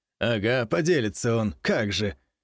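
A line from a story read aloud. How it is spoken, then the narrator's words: Contemptuous snort, man. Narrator (Russian): хмыкнул мужчина презрительно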